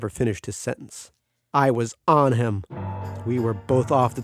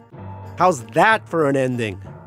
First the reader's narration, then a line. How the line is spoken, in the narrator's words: shouted